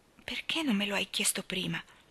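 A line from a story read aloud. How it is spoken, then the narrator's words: Murmured. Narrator (Italian): mormorò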